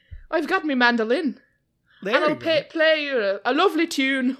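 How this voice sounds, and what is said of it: Put-on Irish accent, sounding Scottish. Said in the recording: “How does that Irish accent go? ... That's Scottish. That's not Irish. ... I think it's Scottish enough.”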